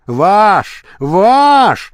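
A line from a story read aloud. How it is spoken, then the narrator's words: Screaming. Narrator (Russian): завопил Савелий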